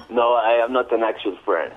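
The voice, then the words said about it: Convincing fake French accent. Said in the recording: “are you an actual French? ... that's a very convincing accent right there”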